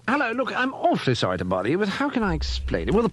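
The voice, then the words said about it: English accent. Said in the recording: “as you can probably guess from my accent, I'm English, a Britisher”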